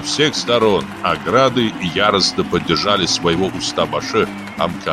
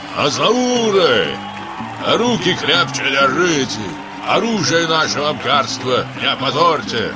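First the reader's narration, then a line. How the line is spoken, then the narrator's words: Frenzied, loud shout. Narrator (Russian): почтенный Баадур Гогеладзе неистово закричал на всю Аспарезию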